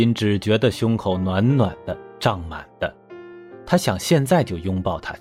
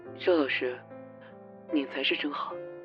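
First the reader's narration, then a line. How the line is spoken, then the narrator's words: Soft voice. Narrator (Chinese): 罗明瑶声音也很轻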